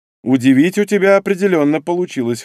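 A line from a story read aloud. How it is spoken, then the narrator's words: Snorting. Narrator (Russian): хмыкнул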